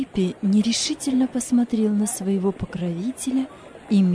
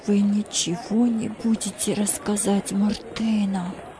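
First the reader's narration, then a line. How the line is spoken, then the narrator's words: Fearful whisper. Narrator (Russian): прошептал Джузеппе со страхом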